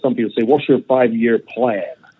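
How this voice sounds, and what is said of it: Put-on American accent. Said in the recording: “I can put an American accent”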